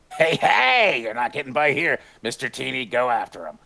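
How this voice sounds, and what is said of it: Krusty the Clown cartoon voice. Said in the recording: “Krusty impression”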